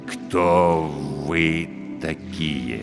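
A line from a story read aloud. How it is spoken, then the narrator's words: Quiet, careful question. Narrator (Russian): Негромко, тщательно подбирая слова, спросил он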